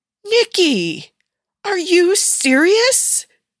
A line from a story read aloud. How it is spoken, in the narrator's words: She shrieked